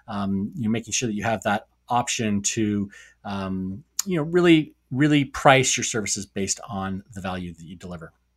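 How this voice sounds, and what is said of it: Tired, dry, wearing-out voice. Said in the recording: “My voice is going, my throat's getting dry. My voice is wearing out a little bit.”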